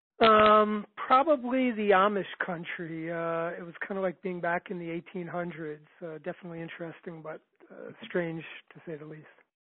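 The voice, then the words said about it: New York accent. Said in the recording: “Can hear it by the accent.”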